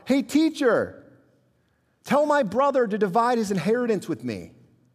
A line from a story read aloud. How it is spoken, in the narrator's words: someone from the crowd yell out